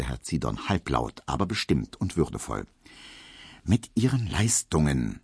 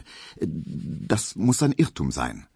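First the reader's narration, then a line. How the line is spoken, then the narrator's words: Stammering. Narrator (German): stotterte Emil Kubinke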